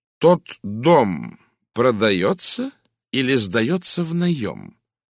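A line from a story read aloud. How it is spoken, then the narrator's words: Slow, distinct question. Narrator (Russian): медленно и отчетливо спросил Пуаро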